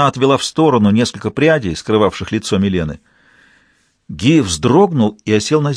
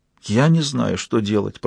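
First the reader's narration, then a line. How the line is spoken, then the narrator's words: Whispered between sighs. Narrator (Russian): прошептала Фаустина между двумя вздохами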